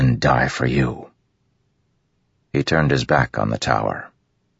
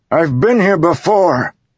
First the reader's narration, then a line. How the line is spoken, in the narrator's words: Kaladin bellowed